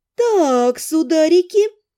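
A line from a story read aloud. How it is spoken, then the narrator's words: Drawling. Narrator (Russian): протянула я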